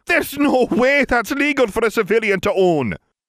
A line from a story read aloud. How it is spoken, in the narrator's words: barked out a laugh